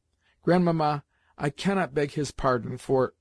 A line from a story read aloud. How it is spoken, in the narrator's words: I stopped suddenly, for I felt the next word refused to come for the tears that were choking me